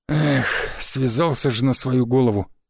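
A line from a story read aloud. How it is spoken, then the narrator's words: Sighed. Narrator (Russian): вздохнул мастер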